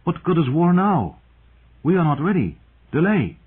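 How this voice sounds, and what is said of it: Liquid Free Cities accent. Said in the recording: “liquid accents of the Free Cities ... the voice with the accent complained”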